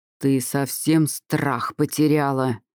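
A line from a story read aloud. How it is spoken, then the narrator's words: Angry growl. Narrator (Russian): зарычал он вместо приветствия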